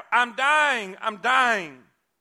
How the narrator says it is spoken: She again cried out

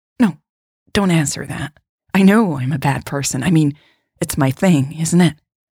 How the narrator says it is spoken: She laughed bitterly

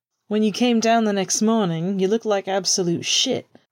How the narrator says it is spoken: Pete said with a boisterous laugh, even drowning out James and Sirius for a moment

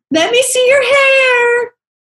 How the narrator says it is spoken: I shrieked from my car window to hers

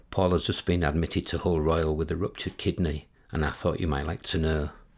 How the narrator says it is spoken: Sue said quietly

